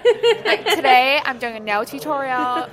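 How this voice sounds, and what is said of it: Put-on American YouTuber accent. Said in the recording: “American accent ... associate like production like with like American accents ... back then it was so bad”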